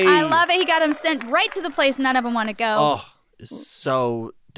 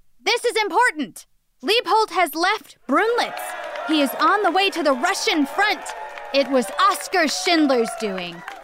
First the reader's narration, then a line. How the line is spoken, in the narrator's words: a friend approached them, shouting